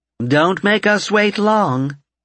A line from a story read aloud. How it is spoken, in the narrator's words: Karen called out from the table